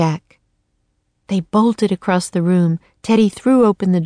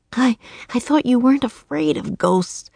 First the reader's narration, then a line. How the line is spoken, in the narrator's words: he said to Teddy, gasping